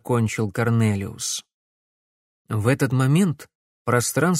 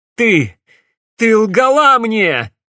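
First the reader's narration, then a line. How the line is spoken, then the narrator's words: Bitter shout. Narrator (Russian): горько крикнул Алекс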